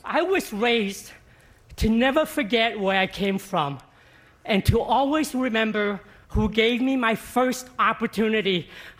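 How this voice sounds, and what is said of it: Shaking, emotional, joyful voice. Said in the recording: “listen to his voice ... the pure joy, authenticity ... and absolute gratitude in his shaking voice”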